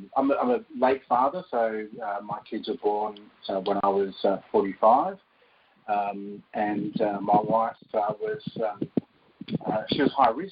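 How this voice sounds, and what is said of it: Strong, hard-to-follow accent. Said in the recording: “They might have to listen back to this podcast a couple of times to understand my accent”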